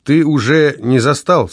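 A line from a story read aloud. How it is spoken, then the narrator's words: Plain. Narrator (Russian): сказал Никите Савва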